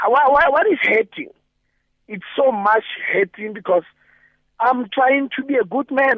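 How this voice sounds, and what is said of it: Desperate, distressed voice. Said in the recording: “the sound of your voice is a sound of desperation”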